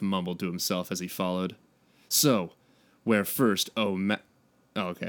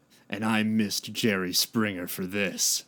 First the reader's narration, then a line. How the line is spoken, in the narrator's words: Raph grumbled